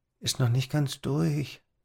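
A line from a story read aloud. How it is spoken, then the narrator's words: Muttered. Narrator (German): murmelte er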